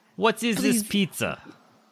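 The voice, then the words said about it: Russian accent, throaty. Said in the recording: “try to say pizza in a Russian accent ... To really get in the back of your throat.”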